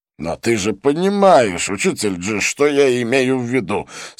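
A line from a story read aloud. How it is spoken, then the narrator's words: Slightly irritated. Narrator (Russian): сказал чуть раздраженно чистолюбец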